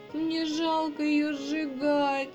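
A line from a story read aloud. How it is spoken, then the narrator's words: Sobbing young hedgehog girl. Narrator (Russian): рыдала ёженка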